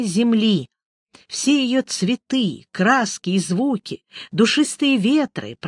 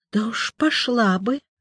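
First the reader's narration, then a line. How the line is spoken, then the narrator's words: Embarrassed mutter. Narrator (Russian): смущенно пробормотала Николина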